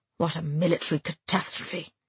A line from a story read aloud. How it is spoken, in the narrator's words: he muttered under his breath